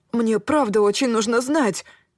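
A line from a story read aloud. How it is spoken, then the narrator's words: Pleading young man. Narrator (Russian): взмолился юноша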